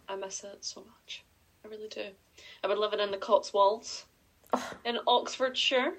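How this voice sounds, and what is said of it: Very posh English accent. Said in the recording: “She's dead posh. I don't know if you can tell her accent yet, but it is it's very posh.”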